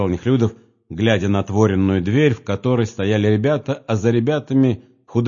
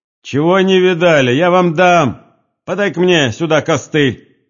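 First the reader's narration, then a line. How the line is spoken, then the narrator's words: Old woman's shout. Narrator (Russian): крикнул старуха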